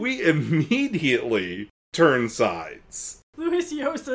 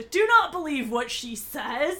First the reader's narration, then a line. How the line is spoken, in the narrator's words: he shouted to the other shootists